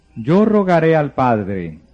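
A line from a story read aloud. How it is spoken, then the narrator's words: Plain. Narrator (Spanish): dijo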